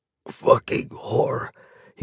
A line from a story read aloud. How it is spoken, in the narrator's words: he manages to mutter